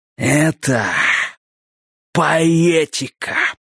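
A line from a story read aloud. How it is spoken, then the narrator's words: Breathless exhale. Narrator (Russian): выдохнул Дак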